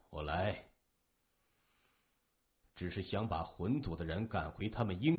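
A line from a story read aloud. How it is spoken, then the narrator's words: Soft sigh, leisurely. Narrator (Chinese): 向问天低声一叹，悠悠地说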